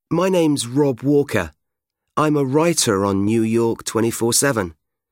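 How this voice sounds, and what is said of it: British English accent. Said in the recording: “You can probably tell from my accent that I'm not actually from New York. I'm British”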